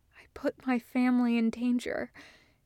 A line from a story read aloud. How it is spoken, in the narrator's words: he whispers, and the truth burns like guilt on his tongue